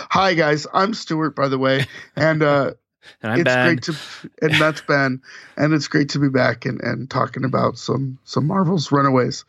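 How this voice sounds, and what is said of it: Hoarse, strained voice. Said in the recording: “I'm sorry I've lost my voice.”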